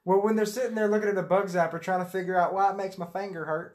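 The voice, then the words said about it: Southern accent. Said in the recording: “There goes the southern accent again.”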